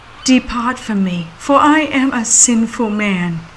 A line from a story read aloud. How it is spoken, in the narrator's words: Peter exclaimed